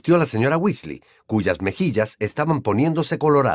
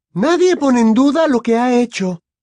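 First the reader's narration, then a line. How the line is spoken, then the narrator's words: Raised voice exclaiming. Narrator (Spanish): exclamó la señora Weasley, elevando la voz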